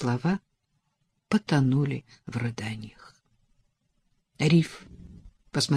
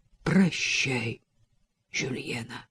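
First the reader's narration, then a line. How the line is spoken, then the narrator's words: Muffled, low voice. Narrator (Russian): глухо произнес он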